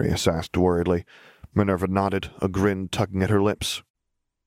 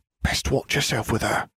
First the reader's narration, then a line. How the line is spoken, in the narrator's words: he added in a whisper